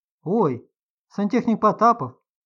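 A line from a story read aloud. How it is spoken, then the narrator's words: Exclaiming. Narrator (Russian): воскликнула Любочка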